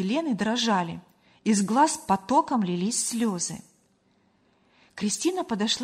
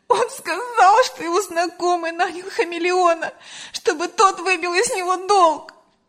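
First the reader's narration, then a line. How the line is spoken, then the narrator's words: Sobbing. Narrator (Russian): разрыдалась Лена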